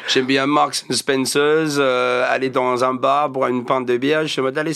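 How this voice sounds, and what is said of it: Slight English-speaker accent in French. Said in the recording (French): “vous avez comme un petit accent un peu anglophone là. Vous êtes tous les deux nés en Angleterre.”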